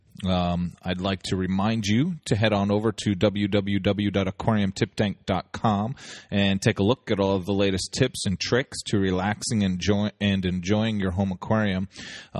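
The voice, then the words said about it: Voice affected by a cold. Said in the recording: “my voice sounds a little bit different today, it might just be because I have a little bit of a cold ... and a little bit of a throat issue”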